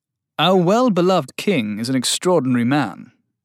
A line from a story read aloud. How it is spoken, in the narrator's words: said Sylvain